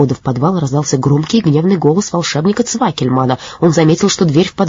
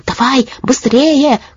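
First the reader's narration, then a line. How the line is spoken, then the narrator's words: Shouted. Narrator (Russian): крикнула жаба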